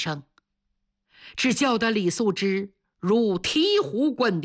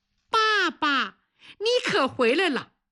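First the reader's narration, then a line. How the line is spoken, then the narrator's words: Crisp child's cry. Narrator (Chinese): 楠楠被惊醒了，小姑娘脆生生地喊了一声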